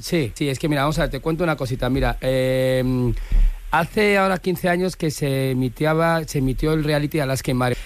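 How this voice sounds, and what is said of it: Valencian Spanish accent. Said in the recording (Spanish): “habla todo el rato con acento valenciano”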